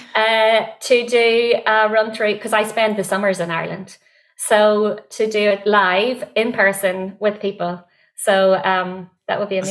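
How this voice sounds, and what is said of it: Northern Irish accent. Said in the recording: “in my Northern Irish accent”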